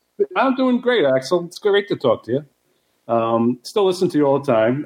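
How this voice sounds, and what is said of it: New Jersey accent. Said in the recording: “you got the voice, man. You know, you're like me with the Jersey accent.”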